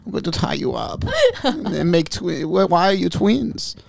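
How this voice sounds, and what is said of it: Put-on German accent. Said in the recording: “It's a really good German accent.”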